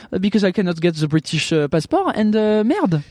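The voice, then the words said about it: Put-on French accent. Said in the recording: “I will speak to you forever like this with this accent”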